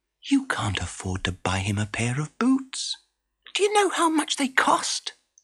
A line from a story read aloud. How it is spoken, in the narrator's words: Danilia whispered to Frederico